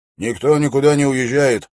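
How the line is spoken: Stern guard. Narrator (Russian): строго сказал часовой

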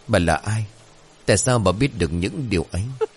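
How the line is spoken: Trembling stammer. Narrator (Vietnamese): Chắc như đinh đóng cột, Mọi Chừng run rẩy lắp bắp

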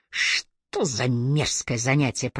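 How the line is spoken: Muttered under breath. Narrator (Russian): пробурчал он под нос

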